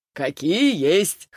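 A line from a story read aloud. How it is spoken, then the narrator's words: Laughing. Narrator (Russian): хохотнул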